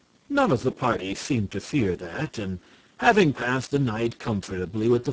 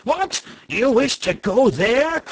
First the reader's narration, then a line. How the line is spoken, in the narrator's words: cried the man